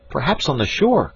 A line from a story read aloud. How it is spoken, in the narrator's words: cried Jack